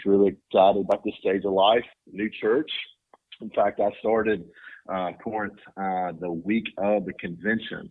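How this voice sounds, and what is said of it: Strong rural Southern US accent. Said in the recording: “your accent is at least as pronounced as mine ... they're going to think that they've tuned into an episode of Hee Haw”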